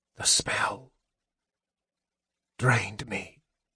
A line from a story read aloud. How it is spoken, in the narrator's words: he whispered